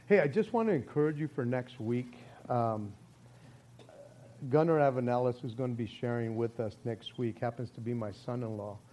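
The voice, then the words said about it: Slightly raspy voice. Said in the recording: “my voice was like almost back to normal until worship ... I'm just singing at the top of my lungs ... It's still a little raspy”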